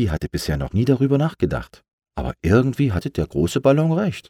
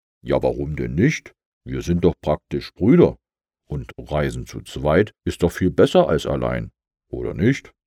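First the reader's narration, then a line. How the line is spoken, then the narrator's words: Grumbling question. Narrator (German): brummte der große Ballon fragend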